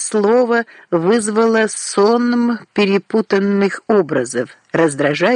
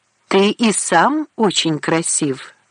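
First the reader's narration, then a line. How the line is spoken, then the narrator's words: Plain. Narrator (Russian): сказала она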